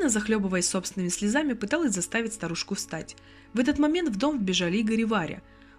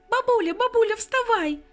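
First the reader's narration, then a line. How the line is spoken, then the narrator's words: Little girl's thin wail. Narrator (Russian): Тоненьким детским голоском вопила девчушка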